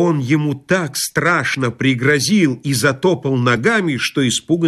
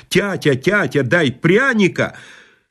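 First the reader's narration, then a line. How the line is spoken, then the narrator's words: Boy shouting. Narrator (Russian): подбежал к нему запачканный мальчишка в изодранной рубашонке и закричал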